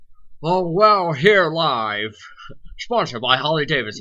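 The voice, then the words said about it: Put-on American sports commentator voice. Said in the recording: “You don't have to put on an American accent... it's like sports commentator voice.”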